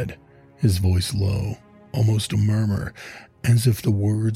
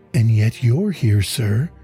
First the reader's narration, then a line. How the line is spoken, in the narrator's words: she replied, her chin lifting, though her voice wavering